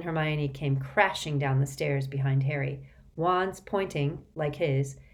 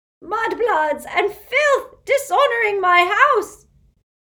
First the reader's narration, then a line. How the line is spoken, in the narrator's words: she began to scream